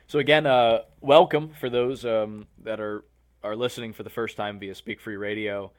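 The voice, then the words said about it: Hoarse voice. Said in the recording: “I'm very hoarse already.”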